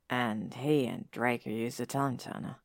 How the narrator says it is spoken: Harry says quietly

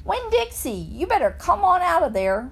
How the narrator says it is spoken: hollered

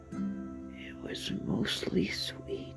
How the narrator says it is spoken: he whispered

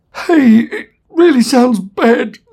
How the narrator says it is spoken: stammered Zaphod

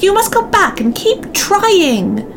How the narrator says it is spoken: shouted the short, wise old man

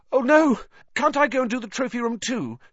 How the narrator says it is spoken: said Harry desperately

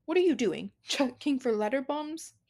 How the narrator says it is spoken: He chuckled at his own joke

